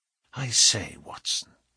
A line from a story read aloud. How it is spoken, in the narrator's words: he whispered